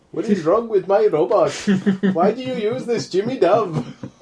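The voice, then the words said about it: Bad accent, Johnny Five impression. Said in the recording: “Johnny Five in the background. ... Speaking of bad accents.”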